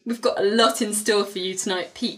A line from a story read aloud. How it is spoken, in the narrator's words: she giggles